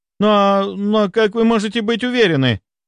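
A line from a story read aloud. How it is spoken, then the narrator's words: Babbling timidly. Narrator (Russian): Пролепетала Маша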